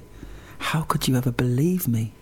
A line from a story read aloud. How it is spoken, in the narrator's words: she smiled and said softly